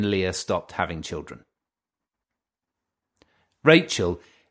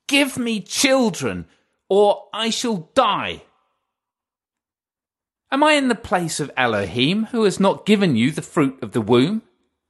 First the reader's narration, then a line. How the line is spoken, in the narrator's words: he retorted angrily